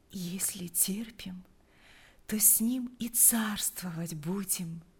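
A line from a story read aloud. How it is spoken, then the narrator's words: Sleepy whisper. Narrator (Russian): прошептала она, засыпая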